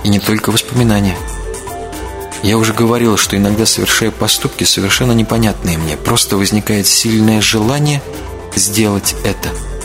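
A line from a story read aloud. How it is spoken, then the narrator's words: Calm speech. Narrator (Russian): она говорила спокойно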